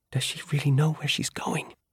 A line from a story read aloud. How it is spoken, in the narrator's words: Eris whispered